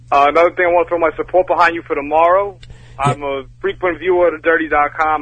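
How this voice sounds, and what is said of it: New Jersey accent. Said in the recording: “I just love the Jersey accent”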